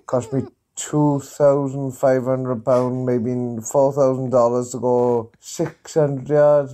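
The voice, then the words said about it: Welsh accent. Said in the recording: “The Welsh accent's thing of beauty ... Is there a better accent?”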